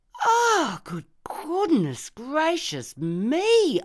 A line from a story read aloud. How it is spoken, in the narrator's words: I cried